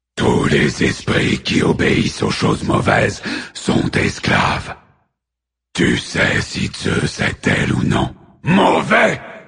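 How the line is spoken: Titan's roar. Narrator (French): rugit Cronos le titan

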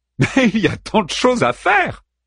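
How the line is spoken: Laughing reply. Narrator (French): répliqua l'autre en riant

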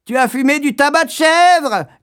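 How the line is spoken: Little sister shouting. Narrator (French): cria la petite sœur

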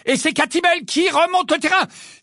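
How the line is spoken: Gamely shouting over loud singing. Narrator (French): s'écria vaillamment Lee, malgré la chanson qui retentissait avec tant de force qu'il avait du mal à se faire entendre

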